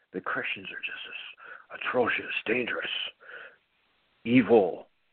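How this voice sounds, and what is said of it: Imitates another person's voice. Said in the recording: “my best Rush Limbaugh impression,”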